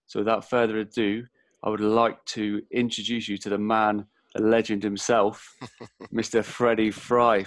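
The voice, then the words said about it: Speaks with a lovely accent. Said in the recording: “I love the accent, the voice, you know, that, you know, it's lovely.”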